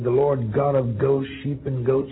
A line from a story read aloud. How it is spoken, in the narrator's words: says he